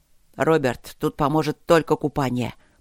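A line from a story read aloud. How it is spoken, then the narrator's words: Hiss. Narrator (Russian): прошипел Люк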